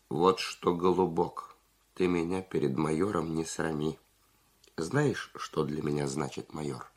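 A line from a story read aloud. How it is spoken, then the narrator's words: Calm but firm. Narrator (Russian): спокойно, но решительно сказал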